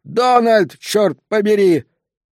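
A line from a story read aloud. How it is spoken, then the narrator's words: Yelled. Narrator (Russian): заорал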